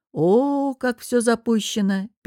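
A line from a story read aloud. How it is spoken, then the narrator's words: Drawn-out interruption. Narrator (Russian): перебив, протянул Костя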